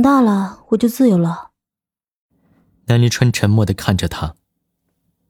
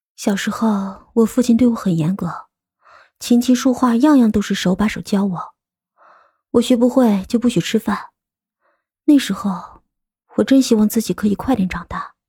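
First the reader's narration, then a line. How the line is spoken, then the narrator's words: Murmuring to himself. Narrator (Chinese): 他喃喃自语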